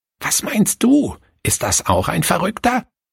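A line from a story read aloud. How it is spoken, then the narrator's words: Grandmother whispers. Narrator (German): flüsterte die Großmutter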